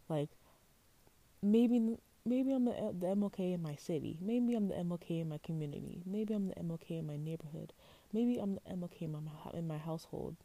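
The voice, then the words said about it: Very fast, passionate speech. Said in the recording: “I'm talking really fast.”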